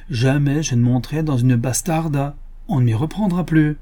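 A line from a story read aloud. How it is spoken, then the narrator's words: Exclaimed. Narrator (French): s'écria Cornelio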